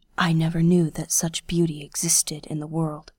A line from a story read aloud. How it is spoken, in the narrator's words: breathed